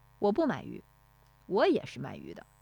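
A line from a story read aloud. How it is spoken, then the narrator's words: Loud voice. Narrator (Chinese): 乔运来…高声说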